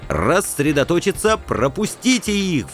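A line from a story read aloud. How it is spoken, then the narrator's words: Howling. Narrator (Russian): взвыл я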